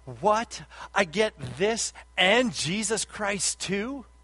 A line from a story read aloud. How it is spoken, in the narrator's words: she joyfully exclaimed